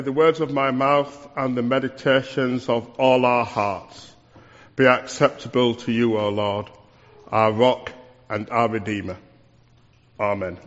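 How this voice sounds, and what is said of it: West Yorkshire accent. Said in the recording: “this is an accent from West Yorkshire”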